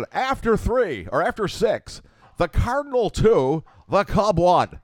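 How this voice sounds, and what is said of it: Harry Caray impression, slurred S's. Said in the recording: “Harry would drink on the air ... when he was so drunk, he would not be able to pronounce the S's ... a good imitation”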